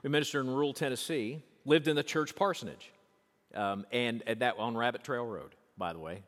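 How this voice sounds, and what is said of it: Rural Tennessee Southern accent. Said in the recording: “rural Tennessee ... you can hear that in my voice. All the time you can hear that in my voice.”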